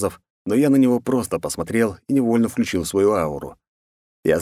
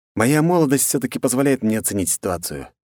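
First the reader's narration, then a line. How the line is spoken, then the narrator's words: Sighing. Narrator (Russian): я вздохнул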